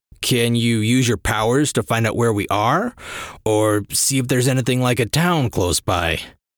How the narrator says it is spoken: He grunted

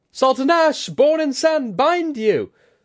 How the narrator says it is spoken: Kudaka shrieked, her eyes full of fury

